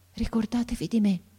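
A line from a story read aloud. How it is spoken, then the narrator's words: Faint breathy murmur. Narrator (Italian): mormorò ancora il ragazzo con una voce che pareva un soffio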